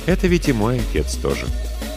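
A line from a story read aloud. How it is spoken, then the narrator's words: Gentle reproachful interruption. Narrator (Russian): мягко, но будто укоризненно перебил его брат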